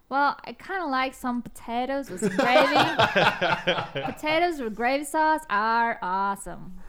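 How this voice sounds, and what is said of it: Put-on Southern American accent. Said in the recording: “Can you do a Southern accent? ... That's beautiful.”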